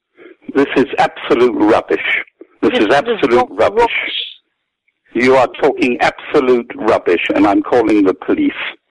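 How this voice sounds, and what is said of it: Good put-on British accent. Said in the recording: “you do a pretty good British voice there ... That's a good British accent”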